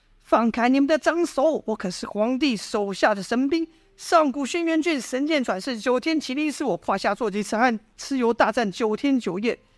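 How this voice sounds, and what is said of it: Child's voice. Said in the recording (Chinese): “一个小孩的声音说道”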